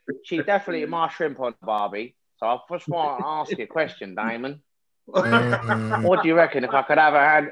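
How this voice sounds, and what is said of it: Poor put-on Australian accent. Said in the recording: “Why is that EastEnders meet his neighbours? ... The accent started strong. ... It got so bad. ... It got worse.”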